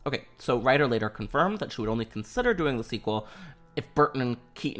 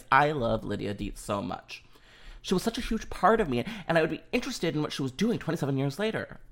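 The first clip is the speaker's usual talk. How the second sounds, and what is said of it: Winona Ryder impression. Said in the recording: “was that a good impression? I feel like it was spot on. Yes, Winona”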